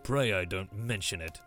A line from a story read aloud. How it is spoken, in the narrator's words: at last he grunted